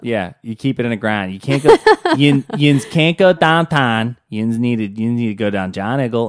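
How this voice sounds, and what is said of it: Exaggerated Pittsburgh accent. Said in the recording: “I hate that accent... The Pittsburgh accent sounds like you forgot half of the alphabet exists... Oh, it's a terrible accent”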